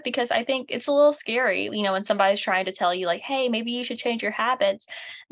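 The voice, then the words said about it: Southern American accent. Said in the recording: “I love being from the South. I'm sure you can tell with this accent.”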